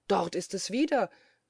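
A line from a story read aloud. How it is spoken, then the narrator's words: Sudden emphatic call. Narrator (German): rief da plötzlich Quetzlinberger, seine vorige Aussage damit bekräftigend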